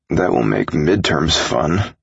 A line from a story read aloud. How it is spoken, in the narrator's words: I grumbled